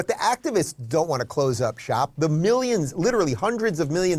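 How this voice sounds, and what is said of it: Usual voice. Nothing is said of it.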